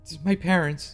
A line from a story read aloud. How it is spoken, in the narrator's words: she managed to get out through sniffs and sobs